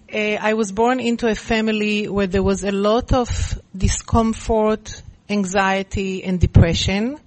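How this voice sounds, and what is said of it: Israeli-accented English. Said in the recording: “I was born in Israel, as you can tell, I guess, by my accent.”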